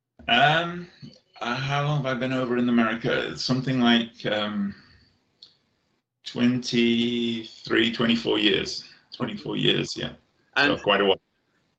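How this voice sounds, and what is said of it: English accent with slight American tinge. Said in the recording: “a little bit of an American accent sneaking into your English one”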